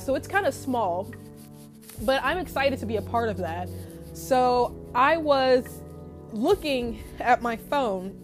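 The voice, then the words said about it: Winded, nasal, stuffed-up voice. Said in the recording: “out of breath. I'm winded. I was kind of sick. I was nasally. My nose was stuffed up. ... I'm huffing and puffing”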